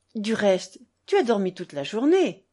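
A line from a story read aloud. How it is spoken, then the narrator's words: Remark with a sigh. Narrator (French): remarqua-t-elle et elle soupira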